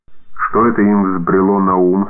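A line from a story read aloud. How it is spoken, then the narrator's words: Grumpy servant grumbling. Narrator (Russian): сварливо заворчал слуга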